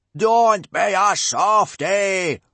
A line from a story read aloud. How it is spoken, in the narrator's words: roared Gobber